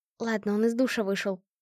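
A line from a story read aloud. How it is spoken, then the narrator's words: Whispered. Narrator (Russian): прошептала Кэт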